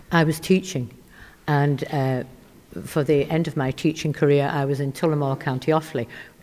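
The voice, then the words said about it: Yorkshire English accent. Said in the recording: “your accent doesn't come from Ballybunion ... originally Huddersfield, Yorkshire”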